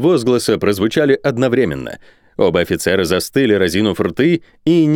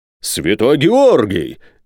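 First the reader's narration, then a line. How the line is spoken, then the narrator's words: Major exclaiming. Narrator (Russian): воскликнул майор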